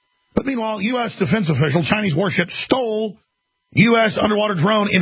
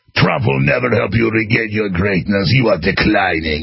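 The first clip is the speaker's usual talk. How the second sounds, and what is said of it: James Bond villain accent. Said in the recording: “not doing really a Chinese accent or a Russian accent. It's more of a specter, you know, bad guy, James Bond villain accent”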